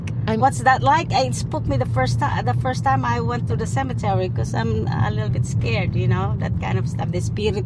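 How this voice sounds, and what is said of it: Speaker with an accent. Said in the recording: “despite the accent”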